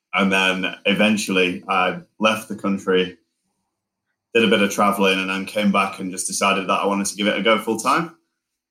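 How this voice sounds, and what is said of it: Northern English Lancashire accent. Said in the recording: “Are you both Northerners? ... my accent's like ... it went a bit southern. And then now I've come back up, so it's kind of like back to normal. ... Now that you're in Lancashire, Blackburn, like it's full northern. ... I'm from Lancashire”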